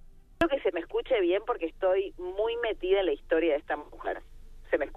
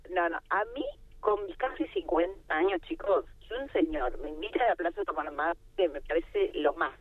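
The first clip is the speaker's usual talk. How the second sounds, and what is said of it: Radio announcer style voice. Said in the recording (Spanish): “voy a hablar con voz de locutora.”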